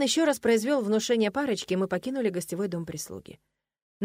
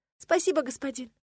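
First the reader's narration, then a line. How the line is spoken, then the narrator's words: Sobbing bride. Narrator (Russian): всхлипнула от дверей невеста бедного Локуса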